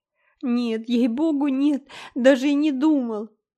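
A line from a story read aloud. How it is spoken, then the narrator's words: Whimpering. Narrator (Russian): захныкал Дэви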